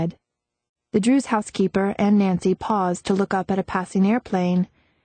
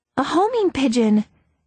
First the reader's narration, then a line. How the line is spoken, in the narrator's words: Nancy exclaimed